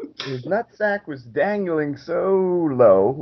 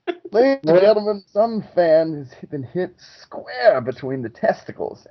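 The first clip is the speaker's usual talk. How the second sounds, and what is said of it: Put-on British accent. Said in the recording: “I've grown a British accent”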